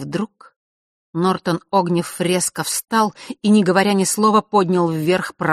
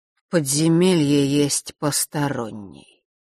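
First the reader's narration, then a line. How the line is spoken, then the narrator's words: Tired. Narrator (Russian): устало произнес Нортон-старший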